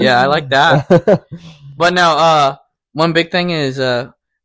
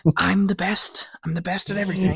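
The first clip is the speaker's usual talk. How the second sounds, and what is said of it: Donald Trump impression. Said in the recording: “do a good Donald Trump impression”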